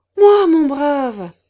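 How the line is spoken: Director exclaiming. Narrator (French): s'écria le directeur

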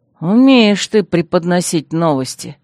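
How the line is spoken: Muttered grumble. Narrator (Russian): проворчал я под нос

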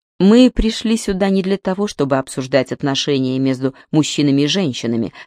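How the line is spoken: Plain. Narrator (Russian): сказал Джордан

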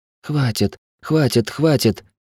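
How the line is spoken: Quiet exhausted dazed repetition. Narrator (Russian): тихо повторяла измученная проклятая, даже не осознававшая, где находится

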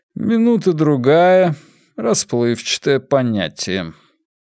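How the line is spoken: Even, level voice. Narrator (Russian): Ровным голосом Уоргрейв произнес

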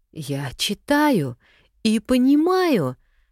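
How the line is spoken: Joyful exclamation. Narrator (Russian): воскликнула Оля, подпрыгнув на месте от радости

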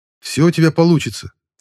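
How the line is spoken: Hurried rapid patter. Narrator (Russian): торопливо протараторил Стрелецкий

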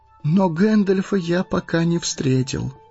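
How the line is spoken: Sad. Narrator (Russian): грустно сказал Фродо

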